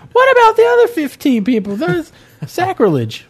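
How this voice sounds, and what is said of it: Imitates another person's voice. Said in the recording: “my Nancy Grace impression.”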